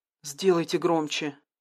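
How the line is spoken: Hoarse croak, voice failing. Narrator (Russian): прохрипела она, отчего-то вмиг утратив способность говорить

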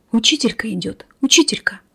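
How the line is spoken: Boys whispering. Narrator (Russian): зашептали мальчишки

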